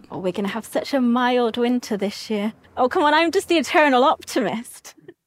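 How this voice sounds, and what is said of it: Posh English accent, not Bristol. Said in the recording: “she sounds a lot posher than a Gloucester accent ... There's quite a Bristol tone to us with the errs and the like that on the end of everything. And she didn't sound like that.”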